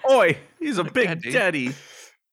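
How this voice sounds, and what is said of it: Put-on British accent. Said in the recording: “are you saying daddy with like a British accent or something?”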